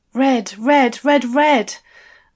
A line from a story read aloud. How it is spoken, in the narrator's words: I gasped